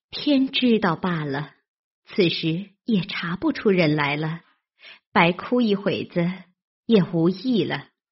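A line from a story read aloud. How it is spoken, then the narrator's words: Sighing. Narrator (Chinese): 袭人 竟不好再劝，因叹道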